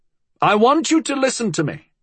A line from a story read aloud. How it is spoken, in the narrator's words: he shouted